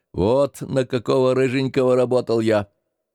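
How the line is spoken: Sober grumbling. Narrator (Russian): отец трезвый ворчал

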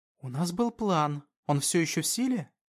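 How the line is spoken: Whispered. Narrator (Russian): прошептала Пермилия

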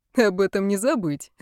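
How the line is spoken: Laughing. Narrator (Russian): рассмеялся Ван

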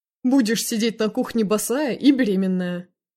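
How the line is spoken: Chuckling. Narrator (Russian): хохотнул Игорь

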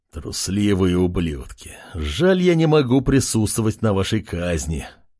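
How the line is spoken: Quiet growl. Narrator (Russian): Тихо рычал он

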